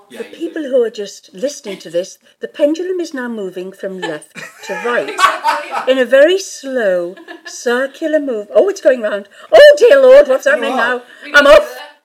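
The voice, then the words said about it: Well-spoken English accent. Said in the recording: “That was such a well-spoken English accent.”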